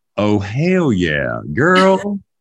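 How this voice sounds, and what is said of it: Put-on Texas accent. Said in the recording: “I'm trying to get my Texas accent ... I'm pretty impressed”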